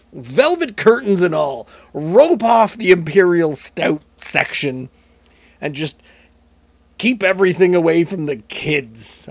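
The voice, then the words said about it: Imitates another person's voice. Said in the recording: “I don't know why I'm going fully Richard Nixon here.”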